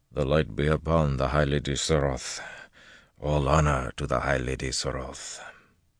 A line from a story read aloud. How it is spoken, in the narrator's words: He let none of his amazement show, murmuring